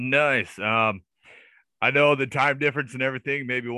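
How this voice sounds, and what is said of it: Usual voice. Nothing is said of it.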